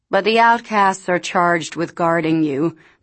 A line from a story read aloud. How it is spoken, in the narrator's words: Vincent said in his even monotone